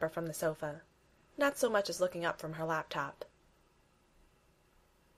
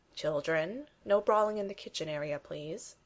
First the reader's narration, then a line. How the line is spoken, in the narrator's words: says Bucky dryly